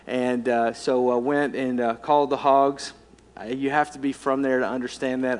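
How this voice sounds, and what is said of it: Southern American accent. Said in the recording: “I was raised in Arkansas, if you couldn't tell by my accent.”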